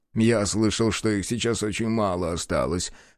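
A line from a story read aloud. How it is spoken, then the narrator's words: Short laugh. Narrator (Russian): хохотнул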